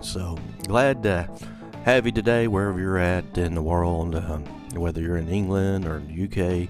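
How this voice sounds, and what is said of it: Upper South Kentucky American accent. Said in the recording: “Probably got more of a Kentucky accent, upper South, than I do deep South or mid South accent.”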